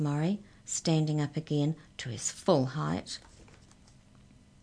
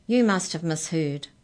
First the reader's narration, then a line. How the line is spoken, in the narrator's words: boomed Murray